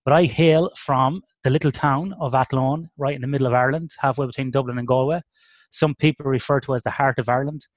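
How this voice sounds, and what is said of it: Irish accent. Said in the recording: “he sounds very Irish for an Australian guy”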